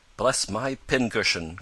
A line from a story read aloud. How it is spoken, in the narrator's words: cried Mr